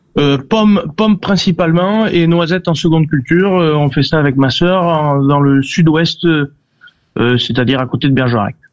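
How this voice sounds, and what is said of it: Southwestern French regional accent. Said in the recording (French): “Ah ben on l'entend à votre bel accent.”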